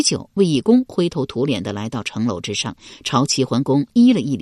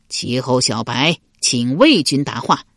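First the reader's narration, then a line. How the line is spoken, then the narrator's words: Loud call. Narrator (Chinese): 齐桓公高声叫道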